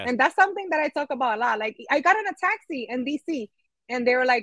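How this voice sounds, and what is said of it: New York accent. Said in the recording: “it's that New York in me that comes out ... Your accent. And I'm like, oh my God, do I have a New York accent?”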